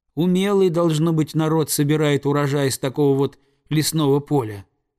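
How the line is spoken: Plain. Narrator (Russian): сказал Нильс

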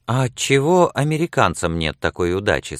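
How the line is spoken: Plain question. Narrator (Russian): спросила Сексон

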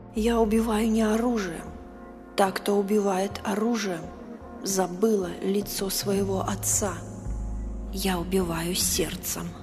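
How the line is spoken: Muttering. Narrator (Russian): пробормотала Сюзанна

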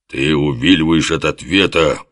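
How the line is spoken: Growling. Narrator (Russian): прорычал Оболенский

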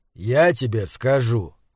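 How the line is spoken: Gloomy. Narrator (Russian): мрачно добавил отец

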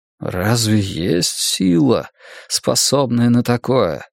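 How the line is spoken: Strained, forced out. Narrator (Russian): с трудом выдавил из себя истинный глаз мирового древа

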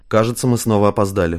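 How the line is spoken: Wry grunting chuckle. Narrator (Russian): хмыкнул Самандар

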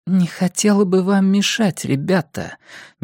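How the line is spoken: Deathly flat interruption. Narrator (Russian): мертвенным голосом прервала его Эрин Хакль

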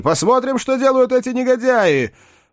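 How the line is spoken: Shout from window. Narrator (Russian): крикнул оттуда тем, кто оставался в зале

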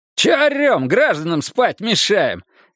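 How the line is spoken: Cheerful shout. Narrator (Russian): весело выкрикнул Монахов

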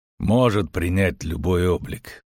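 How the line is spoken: Grumbled. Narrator (Russian): проворчал Геральт

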